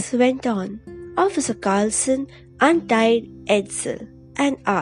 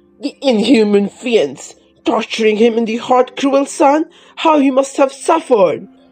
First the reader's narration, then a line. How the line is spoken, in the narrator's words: cried Bugs